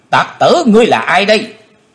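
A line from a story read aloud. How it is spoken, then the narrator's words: Loud shout. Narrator (Vietnamese): có tiếng quát của Tần Phương Lan thét lớn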